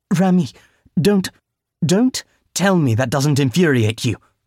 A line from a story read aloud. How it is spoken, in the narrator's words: Rami snapped at her